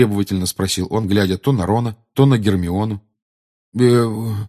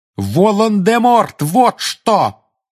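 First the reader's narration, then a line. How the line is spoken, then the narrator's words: Furious shout. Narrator (Russian): яростно крикнул Гарри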